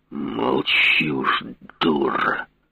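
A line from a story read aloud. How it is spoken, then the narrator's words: Angry, through gritted teeth. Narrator (Russian): зло процедил Гаврилов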